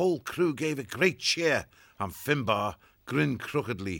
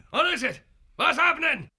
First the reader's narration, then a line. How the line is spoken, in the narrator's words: shouting